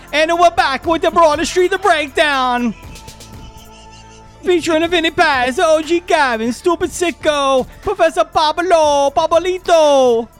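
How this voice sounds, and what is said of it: Put-on Italian-American caricature accent. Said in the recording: “What kind of accent is that, man? ... It's a spicy meatball accent.”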